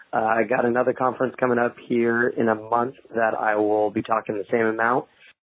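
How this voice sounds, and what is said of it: Hoarse, nearly lost voice. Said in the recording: “if you can't hear from my voice, I have completely lost it”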